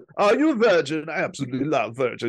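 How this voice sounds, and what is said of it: Put-on German accent. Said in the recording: “with the German accent too”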